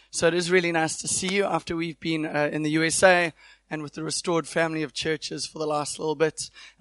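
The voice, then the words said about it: Voice off-pitch, recovering from illness. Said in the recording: “My voice just needs to get into the right pitch ... I've had a little bit of flu this week and I think my voice is”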